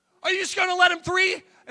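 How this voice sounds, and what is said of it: Yelling, raised angry voice. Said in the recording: “I am yelling ... I'm yelling from the stands”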